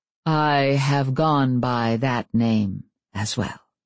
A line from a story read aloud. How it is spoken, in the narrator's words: The Fae on the other side of the door paused before saying slowly